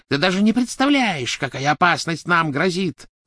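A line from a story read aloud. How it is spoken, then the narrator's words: Shrieked. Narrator (Russian): завизжала Беллатриса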